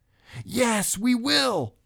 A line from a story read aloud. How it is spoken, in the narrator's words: they all screamed